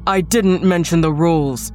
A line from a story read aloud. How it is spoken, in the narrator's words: barked